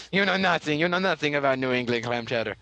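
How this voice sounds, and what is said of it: Mock French accent. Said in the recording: “your words in a French accent were, you Americans, you know nothing.”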